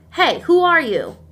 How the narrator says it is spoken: in a demanding yet curious tone

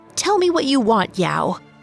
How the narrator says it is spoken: snapped

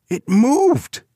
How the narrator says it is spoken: cried disgust

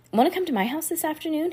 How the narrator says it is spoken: He asked breathlessly

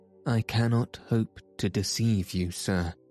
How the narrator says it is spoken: he said

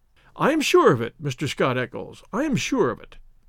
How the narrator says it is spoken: said Inspector Gregson in a very amiable tone

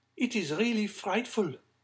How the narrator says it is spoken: cried Madame de Villefort

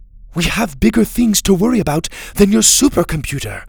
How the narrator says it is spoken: Mora snapped

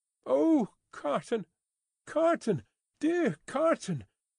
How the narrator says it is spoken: cried little Lucy in a burst of grief

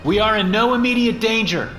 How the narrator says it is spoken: I yelled over my shoulder

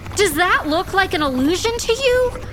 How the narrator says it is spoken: Augustus shouted

